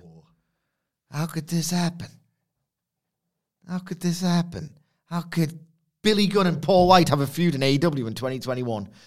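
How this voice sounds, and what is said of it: Deliberately bad Tony Soprano impression. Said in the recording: “a very bad Tony Soprano impression.”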